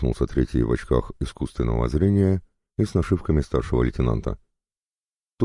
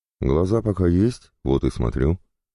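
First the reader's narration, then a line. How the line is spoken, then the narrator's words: Snapping retort. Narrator (Russian): огрызнулся я в ответ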